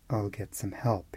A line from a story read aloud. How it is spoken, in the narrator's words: muttered to himself